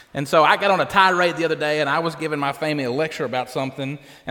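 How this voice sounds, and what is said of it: Thick country accent. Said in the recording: “I forget how thick my country accent is at times”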